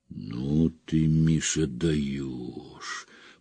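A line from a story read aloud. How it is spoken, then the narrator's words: Stunned drawl. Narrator (Russian): протянул Выговский потрясенно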